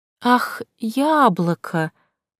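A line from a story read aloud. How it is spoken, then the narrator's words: Drawn out. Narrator (Russian): протянула я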